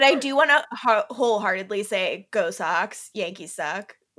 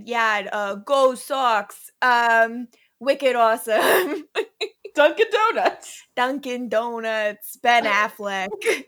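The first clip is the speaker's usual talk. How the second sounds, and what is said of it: Put-on Boston accent. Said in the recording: “Do a Boston accent”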